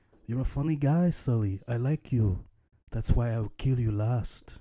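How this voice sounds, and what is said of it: Weak Arnold Schwarzenegger accent impression. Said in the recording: “I didn't do the accent justice ... Arnie situation”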